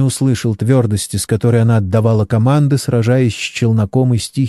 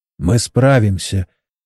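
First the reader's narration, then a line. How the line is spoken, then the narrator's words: Quiet. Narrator (Russian): тихо сказал инженер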